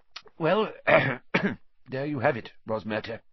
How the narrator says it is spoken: said Fudge thickly

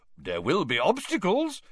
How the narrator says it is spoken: said Bagman happily

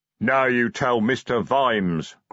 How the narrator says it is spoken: growled Detritus

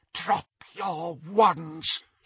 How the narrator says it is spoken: she whispered

